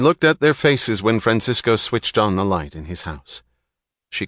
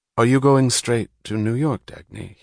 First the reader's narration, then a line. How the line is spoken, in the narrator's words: he asked, in the calm, unstrained tone of a host bringing out a bottle of old wine